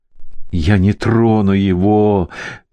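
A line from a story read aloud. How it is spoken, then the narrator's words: Groan. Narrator (Russian): простонал Хайман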